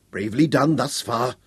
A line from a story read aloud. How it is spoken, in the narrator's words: Llewellyn whispered